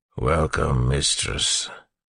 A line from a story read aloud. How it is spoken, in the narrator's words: the Chondra said in a growling, muffled voice